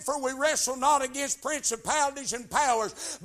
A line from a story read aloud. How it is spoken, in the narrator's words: said